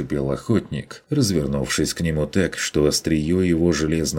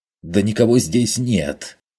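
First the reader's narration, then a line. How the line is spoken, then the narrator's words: Angry reply. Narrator (Russian): Зло отозвался тот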